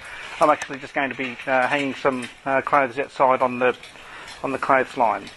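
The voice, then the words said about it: Australian accent. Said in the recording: “I'm, as you can tell by my accent, from Australia.”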